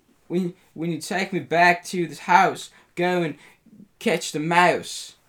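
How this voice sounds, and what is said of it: British accent. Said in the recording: “I'm the British accent Green Goblin.”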